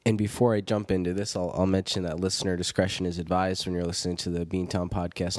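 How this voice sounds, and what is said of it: Deeper voice, congested with cold. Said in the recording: “my voice is a little bit deeper. I'm fighting off a cold.”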